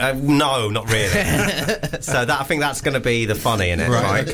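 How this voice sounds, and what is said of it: Usual voice. Nothing is said of it.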